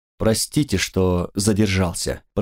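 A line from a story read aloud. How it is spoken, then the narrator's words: Very courteous tone. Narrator (Russian): произнес он самым учтивейшим тоном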